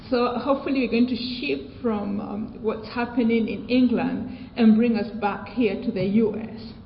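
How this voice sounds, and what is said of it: British accent. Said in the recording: “I'm Kenyan, and I do have a British accent”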